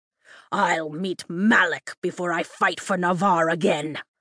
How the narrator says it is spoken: Ulysses snarls

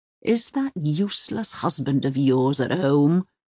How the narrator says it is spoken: Uwe growled

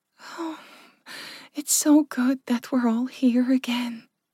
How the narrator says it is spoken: Furka sighed happily

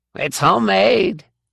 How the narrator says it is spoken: he squeaked at her

